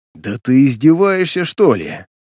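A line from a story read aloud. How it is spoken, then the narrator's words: Hissed. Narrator (Russian): Прошипел я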